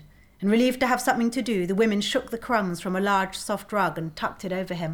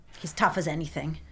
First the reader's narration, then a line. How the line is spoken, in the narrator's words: Andrew said irritably